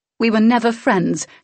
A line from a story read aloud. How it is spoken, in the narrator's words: snapped